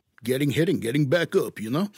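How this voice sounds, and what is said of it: Put-on accent. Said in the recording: “I could listen to you do that accent all day. That's wonderful.”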